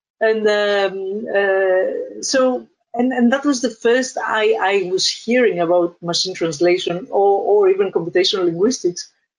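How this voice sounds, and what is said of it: Greek-accented English. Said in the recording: “Greece. ... You cannot tell already from my accent.”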